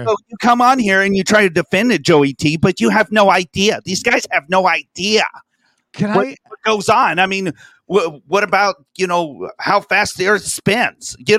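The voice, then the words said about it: Imitates another person's voice. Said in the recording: “That's pretty good impersonation.”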